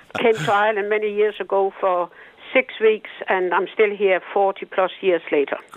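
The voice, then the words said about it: Danish accent. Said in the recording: “And you haven't lost the old accent, though.”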